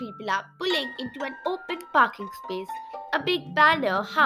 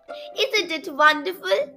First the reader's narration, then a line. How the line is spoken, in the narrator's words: said Shivreen happily